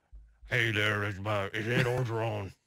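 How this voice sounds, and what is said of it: Imitates another person's voice. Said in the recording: “your best impression of him ... that Southern Louisiana accent”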